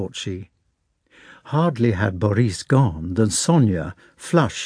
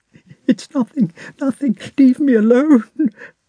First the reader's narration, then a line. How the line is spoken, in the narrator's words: sobbed Sonia